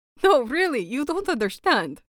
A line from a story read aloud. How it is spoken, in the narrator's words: Victor laughed